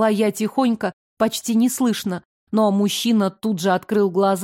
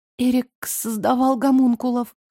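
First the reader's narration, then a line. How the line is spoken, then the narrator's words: Sobbing through tears. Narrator (Russian): всхлипнула я, из моих глаз текли слезы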